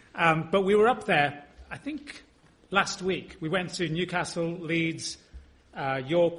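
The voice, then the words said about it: London accent. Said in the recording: “my very London accent”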